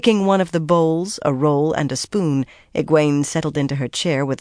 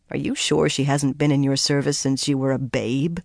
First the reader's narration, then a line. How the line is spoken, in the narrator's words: she muttered